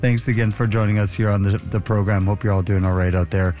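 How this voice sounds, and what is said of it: Slightly raspy voice. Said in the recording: “my voice is a little bit raspy, but not too bad”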